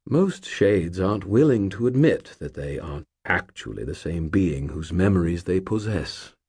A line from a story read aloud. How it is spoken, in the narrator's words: he said gently